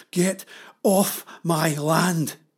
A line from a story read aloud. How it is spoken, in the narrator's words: panted